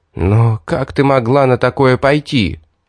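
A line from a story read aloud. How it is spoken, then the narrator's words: Disbelieving breathless exhale. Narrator (Russian): Все еще не веря своим глазам выдохнул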